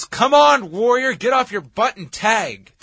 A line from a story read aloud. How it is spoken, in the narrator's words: Piper yells